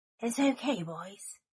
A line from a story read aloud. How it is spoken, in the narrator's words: Reem said gently